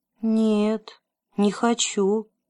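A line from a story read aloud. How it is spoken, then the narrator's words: Sad. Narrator (Russian): печально сказал Лукас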